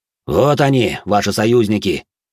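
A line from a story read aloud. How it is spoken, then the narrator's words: Angry. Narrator (Russian): зло произнес он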